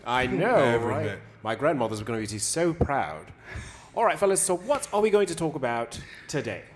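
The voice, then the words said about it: English accent. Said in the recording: “The first Dominican with an English accent.”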